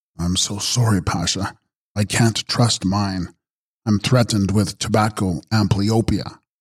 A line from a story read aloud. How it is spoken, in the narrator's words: he only murmured